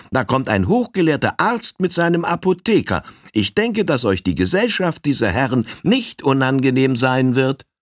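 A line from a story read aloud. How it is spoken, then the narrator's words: Calling inside. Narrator (German): rief hinein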